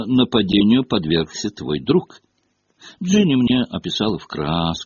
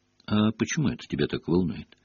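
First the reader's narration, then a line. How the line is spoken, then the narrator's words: Quiet question. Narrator (Russian): тихо спросил Гарри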